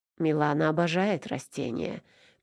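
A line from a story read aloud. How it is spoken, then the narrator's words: Purring. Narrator (Russian): мурлыкал он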